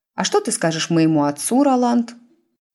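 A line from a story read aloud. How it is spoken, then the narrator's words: Sugary voice. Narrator (Russian): Сладеньким голосом осведомилась Тиффани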